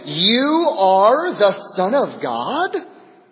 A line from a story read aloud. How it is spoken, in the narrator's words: The demons ... they shouted